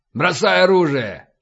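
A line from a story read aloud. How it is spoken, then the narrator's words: Barked command. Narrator (Russian): рявкнул полубой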